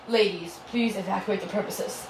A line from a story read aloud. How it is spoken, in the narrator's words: the guard said in a serious voice